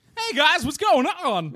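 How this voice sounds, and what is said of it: Uncanny impression of another person's voice. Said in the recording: “my best impression of you ... You nail it, though ... I'm seeing double ... Was that your impression of Taylor? ... It's spooky.”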